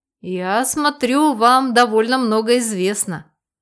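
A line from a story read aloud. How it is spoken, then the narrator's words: Nervous chuckle. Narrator (Russian): нервно хохотнул Макар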